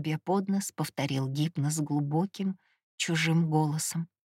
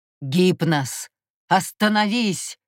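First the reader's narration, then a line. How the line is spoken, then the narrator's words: Hoarse shout. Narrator (Russian): хрипло закричал Мурос на брата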